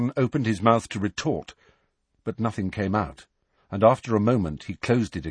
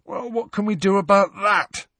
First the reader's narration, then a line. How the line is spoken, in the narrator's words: said Ron, yawning